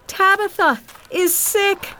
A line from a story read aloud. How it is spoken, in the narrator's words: cried to the other church people